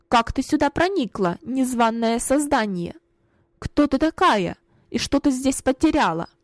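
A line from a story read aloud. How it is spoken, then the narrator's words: Stern question. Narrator (Russian): строго спросила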